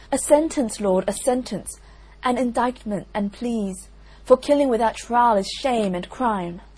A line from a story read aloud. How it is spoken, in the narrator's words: they cried all with tears